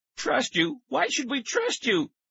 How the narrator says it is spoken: Tara cried

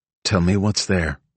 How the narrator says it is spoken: Nola said, her voice flat and measured

